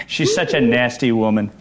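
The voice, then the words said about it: Imitates another person's voice. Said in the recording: “He does do a pretty good imitation of the president ... He does a very good imitation.”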